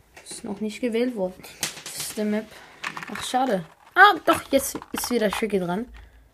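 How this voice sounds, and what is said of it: Worn-out, strained voice. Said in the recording (German): “meine Stimme ist am Arsch”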